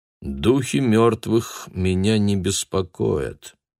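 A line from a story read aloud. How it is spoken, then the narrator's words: Flat tired voice. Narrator (Russian): ответил Дойль бесцветным усталым голосом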